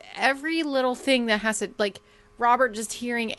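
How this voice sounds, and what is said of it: Usual voice. Nothing is said of it.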